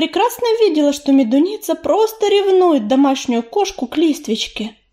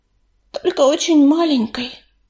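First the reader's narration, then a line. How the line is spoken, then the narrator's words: Guilty sigh. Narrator (Russian): виновато вздохнула Белочка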